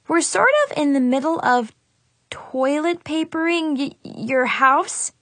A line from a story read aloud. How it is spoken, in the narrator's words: I stammered